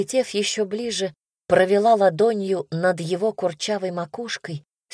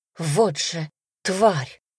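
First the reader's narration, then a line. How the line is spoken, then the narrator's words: Angry hiss. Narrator (Russian): зло прошипело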